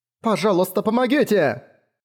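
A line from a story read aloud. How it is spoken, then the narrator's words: Male shout. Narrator (Russian): крикнул он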